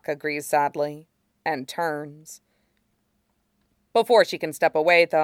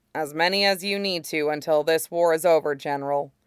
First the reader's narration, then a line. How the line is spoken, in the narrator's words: Colt says gruffly, but not unkindly